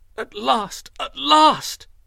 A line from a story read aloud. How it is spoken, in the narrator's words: cried, laughing joyfully